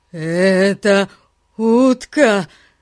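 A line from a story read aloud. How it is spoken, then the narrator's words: Wild shout. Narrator (Russian): Диким голосом крикнул он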